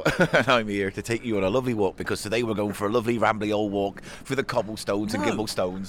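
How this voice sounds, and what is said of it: Silly rambling storyteller voice. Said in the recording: “that stupid, stupid voice you're fucking doing ... Like rumbling, wimbly, bob rumbled cobblestone”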